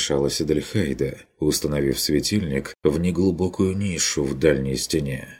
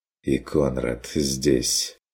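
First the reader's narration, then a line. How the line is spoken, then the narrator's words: Quiet remark. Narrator (Russian): тихо заметил фон Вегерхоф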